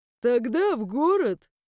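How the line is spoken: Laughing. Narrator (Russian): рассмеялся Хараш

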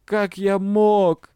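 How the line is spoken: Moaning. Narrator (Russian): простонал преподаватель

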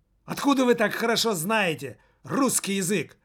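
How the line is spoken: Hysterical shriek. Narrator (Russian): Взвизгнул он истерично

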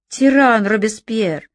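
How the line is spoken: Loud. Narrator (Russian): говорил громко

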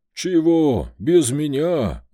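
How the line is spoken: Howling dog. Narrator (Russian): взвыл пес

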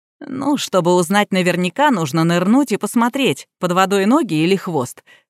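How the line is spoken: Snort. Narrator (Russian): хмыкнул Ян

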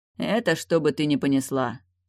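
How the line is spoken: Sorcerer's calm explanation. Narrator (Russian): спокойно пояснил колдун

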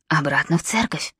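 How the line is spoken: Whispered command. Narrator (Russian): скомандовал шепотом невидимый Нимрод

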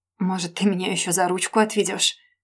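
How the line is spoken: Through clenched teeth. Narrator (Russian): Процедила сквозь зубы

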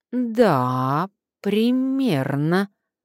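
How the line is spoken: Drawling. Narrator (Russian): протянул Карпов

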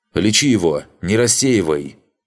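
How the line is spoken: Shout. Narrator (Russian): крикнул Рос

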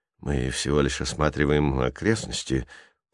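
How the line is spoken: Mumbled. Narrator (Russian): промямлил второй белокурый

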